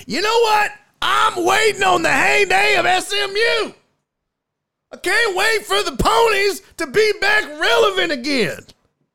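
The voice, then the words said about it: Old white man character voice. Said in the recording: “I was impersonating old white dudes who love old Southwest Conference matchups and rivalries.”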